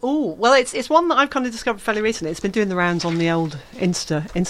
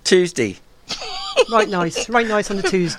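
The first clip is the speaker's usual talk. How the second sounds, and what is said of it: Norfolk accent. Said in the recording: “Did you say Tuesday in a Norfolk accent?”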